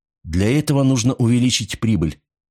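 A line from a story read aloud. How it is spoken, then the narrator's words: Sharp objection. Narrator (Russian): резко возразил Рудольф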